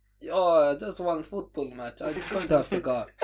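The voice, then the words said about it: Bad Carlo Ancelotti accent impression. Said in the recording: “But I beg you never do that accent ever again. ... That was horrible.”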